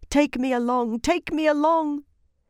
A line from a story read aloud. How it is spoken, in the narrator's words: every tree she passed ... pleading